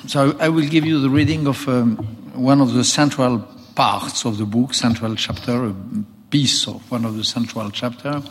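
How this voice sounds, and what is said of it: Heavily accented non-native English. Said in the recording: “my pitiful English, my dramatic English ... I think it's a little better without the accent, but alas, I cannot.”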